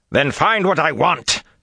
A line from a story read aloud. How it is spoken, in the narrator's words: Samael roared